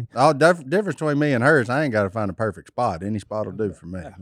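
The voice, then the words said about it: Thick Southern US accent. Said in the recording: “He has a super thick southern accent”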